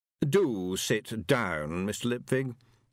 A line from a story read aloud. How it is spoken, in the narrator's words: said, gesturing wearily